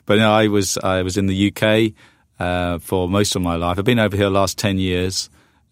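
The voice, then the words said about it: British accent, not American. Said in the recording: “his accent is definitely not American ... I uh, am a Brit”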